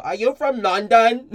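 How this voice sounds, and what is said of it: Mock British accent. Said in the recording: “the British goes ... I have no respect for accents.”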